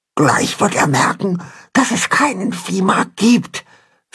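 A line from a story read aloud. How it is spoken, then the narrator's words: Anxious whisper. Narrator (German): flüstert Pünktchen ängstlich ihrem Vater zu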